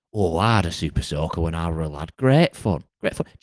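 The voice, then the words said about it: Vernon Kay impression, northern accent. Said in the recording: “very Vernon Kay coded, which is like the same accent. That's Vernon Kay at 10:30 a.m. on Radio 2.”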